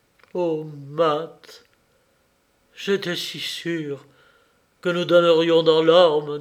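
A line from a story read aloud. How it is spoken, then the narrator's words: Moaning. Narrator (French): dit-il en gémissant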